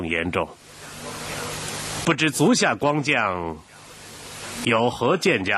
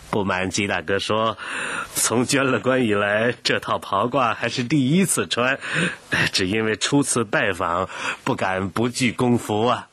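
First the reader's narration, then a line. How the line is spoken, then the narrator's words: Embarrassed laugh. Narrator (Chinese): 胡雪岩不好意思地笑道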